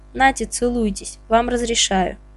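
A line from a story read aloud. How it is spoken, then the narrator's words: Sighing. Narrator (Russian): Павлов вздохнул и сказал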